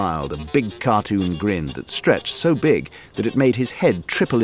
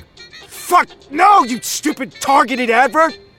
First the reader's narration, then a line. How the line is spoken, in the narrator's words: he screamed